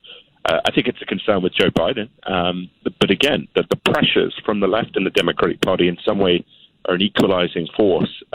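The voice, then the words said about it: British accent. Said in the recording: “a US, U.S. citizen with a British accent”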